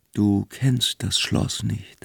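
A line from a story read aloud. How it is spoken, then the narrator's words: Innkeeper speaking quietly. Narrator (German): sagte der Wirt leise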